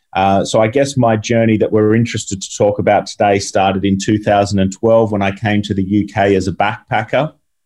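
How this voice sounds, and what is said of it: Australian accent. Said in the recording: “as you can tell from my voice here, I'm from Australia”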